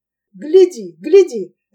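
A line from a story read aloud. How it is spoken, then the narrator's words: Sharp cry. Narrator (Russian): резко вскричал он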